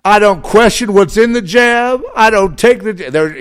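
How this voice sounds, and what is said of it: Imitates a woman from a commercial. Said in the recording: “It's like a black woman, you know. I'm sorry, I'm not doing an imitation very well”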